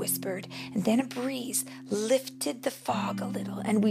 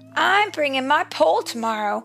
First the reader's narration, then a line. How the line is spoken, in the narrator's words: Tom cried